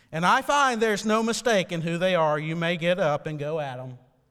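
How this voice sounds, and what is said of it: Put-on Southern accent. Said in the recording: “probably in a good southern accent now”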